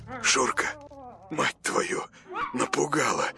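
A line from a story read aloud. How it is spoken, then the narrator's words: Mutter. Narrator (Russian): пробормотал он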